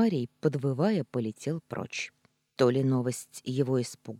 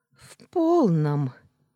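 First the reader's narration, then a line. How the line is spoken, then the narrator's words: Nervous laugh. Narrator (Russian): нервно рассмеялась я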